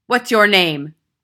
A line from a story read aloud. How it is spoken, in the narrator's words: she barked